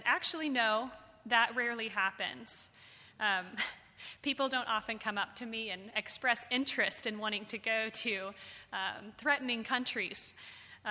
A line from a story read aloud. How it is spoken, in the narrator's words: He laughed, and he said